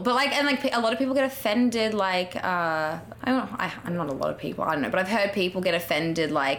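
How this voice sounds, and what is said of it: Australian accent. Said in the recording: “What is it like being a beautiful Australian? ... I get a lot of comments on my accent”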